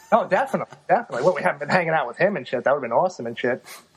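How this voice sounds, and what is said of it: New York accent. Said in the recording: “Definitely out of New York. In case my accent didn't give it away.”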